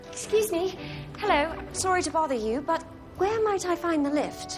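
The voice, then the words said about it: British accent. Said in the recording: “Ooh, British accent.”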